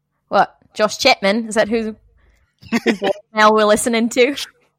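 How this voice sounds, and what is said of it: Put-on Australian accent, not very good. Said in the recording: “You got to do an Australian voice ... Not very good. Sorry, guys. I apologize to the entire country of Australia.”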